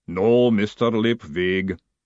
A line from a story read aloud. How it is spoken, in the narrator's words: the golem rumbled